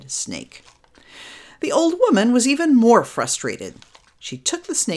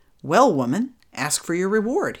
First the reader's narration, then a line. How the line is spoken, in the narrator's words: he said